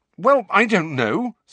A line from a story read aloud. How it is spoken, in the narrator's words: said Harry rather angrily